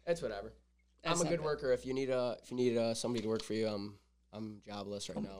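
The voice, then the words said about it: Slightly raspy voice. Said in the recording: “my allergies were bad ... That's why I sound like ... a little ... raspy.”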